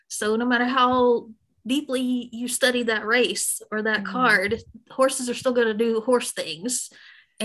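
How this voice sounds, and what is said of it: Southern US accent. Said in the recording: “that beautiful Southern accent, and you were born and raised in Memphis”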